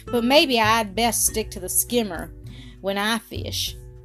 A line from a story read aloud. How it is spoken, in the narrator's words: said poor Jean mournfully